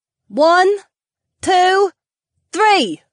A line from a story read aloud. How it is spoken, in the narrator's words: Sienna called out